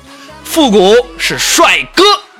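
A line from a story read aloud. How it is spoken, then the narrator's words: Yelling. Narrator (Chinese): 对他吼了一句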